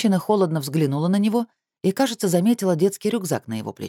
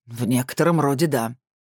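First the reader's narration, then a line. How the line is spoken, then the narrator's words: Smirking, then hoarse cough. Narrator (Russian): с усмешкой сказал второй мужчина и хрипло закашлялся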